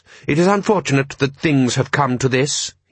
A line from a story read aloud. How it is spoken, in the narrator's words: he said stiffly